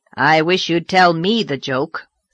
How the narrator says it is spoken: said Marilla a little grimly

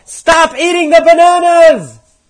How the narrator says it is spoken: one of the monkeys yelled back

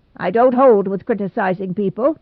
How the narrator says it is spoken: said Mrs

